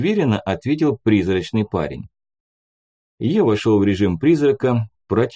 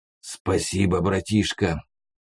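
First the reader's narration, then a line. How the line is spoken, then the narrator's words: Whisper. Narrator (Russian): в темноту прошептал Ласий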